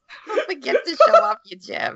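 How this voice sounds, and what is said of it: Put-on Jewish mother accent. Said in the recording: “She's a Jewish mother now... it's just the accent”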